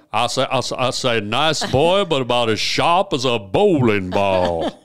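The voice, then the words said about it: Slow Southern drawl. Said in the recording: “everyone thinks I'm from the South because I talk with kind of a slow drawl ... A little foghorn leghorn”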